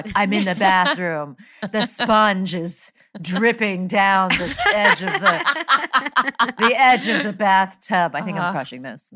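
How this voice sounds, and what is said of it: Impression of co-host reading erotica. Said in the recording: “That's a great impression of me ... that's an impression of you doing an impression of 50 Shades of Grey”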